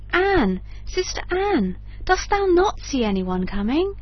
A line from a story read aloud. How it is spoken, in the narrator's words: answered his wife, she cried